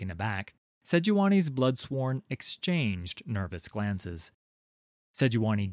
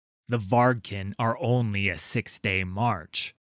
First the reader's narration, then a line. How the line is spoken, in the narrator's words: Udyr snorted